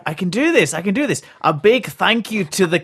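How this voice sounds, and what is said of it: Bad put-on Scottish accent. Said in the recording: “stop trying to do a Scottish accent. You're bad at it.”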